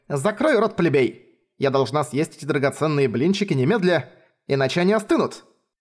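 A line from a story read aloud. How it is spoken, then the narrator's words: Angry interruption. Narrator (Russian): Сердито оборвала его Далиан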